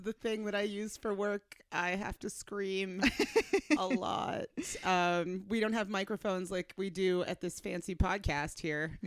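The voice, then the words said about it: Crunchy, strained hoarse voice. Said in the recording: “voice is a little... I'm a little crunchy this week ... So this is what I sound like.”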